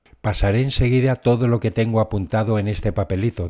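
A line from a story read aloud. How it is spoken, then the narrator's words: Plain. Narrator (Spanish): dijo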